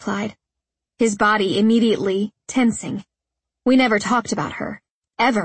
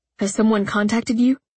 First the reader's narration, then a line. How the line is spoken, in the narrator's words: he asked, his voice strained and quavering